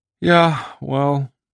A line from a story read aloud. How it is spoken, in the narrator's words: Sam Swope said wearily